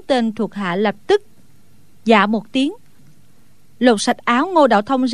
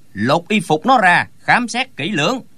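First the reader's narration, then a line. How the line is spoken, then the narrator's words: Frowning sharp shout. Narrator (Vietnamese): Lão bèn chau mày quát lên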